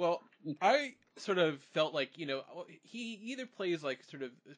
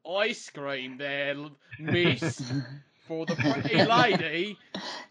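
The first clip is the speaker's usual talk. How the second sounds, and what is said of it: Bad British accent. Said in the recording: “He has a bad British accent”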